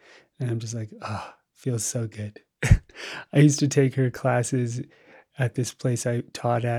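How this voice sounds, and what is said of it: Usual voice. Nothing is said of it.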